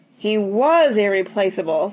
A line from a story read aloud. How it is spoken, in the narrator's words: said Grandma mournfully